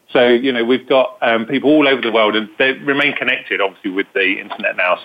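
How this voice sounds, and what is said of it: British accent. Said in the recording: “UK, as you can hear from my authentic British accent.”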